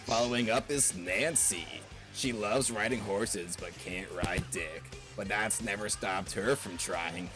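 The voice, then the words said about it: Bad impression of Burger King foot lettuce guy. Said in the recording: “doing a really bad impression of the number 15 Burger King foot lettuce guy”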